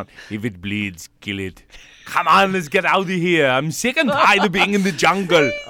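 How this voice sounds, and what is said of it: Arnold Schwarzenegger impression. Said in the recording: “an Arnold Schwarzenegger impression”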